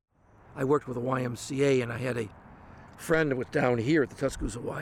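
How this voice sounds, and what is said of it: Northern US Yankee accent. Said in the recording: “Yankee accent and all”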